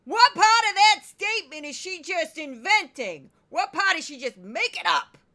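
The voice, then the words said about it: Loud New York accent voice. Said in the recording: “I'm going to go back to that voice. I got to pull away from the mic when I do this because it's very loud ... I've lived in New York for 22 years. I've picked up some accents ... I used to work for a woman who had this voice.”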